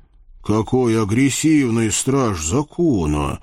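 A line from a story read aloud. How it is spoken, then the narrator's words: Muttered. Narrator (Russian): буркнул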